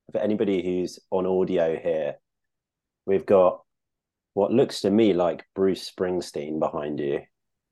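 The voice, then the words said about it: Non-American accent. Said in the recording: “I can tell from your accent that you may not have grown up as a American baseball fan”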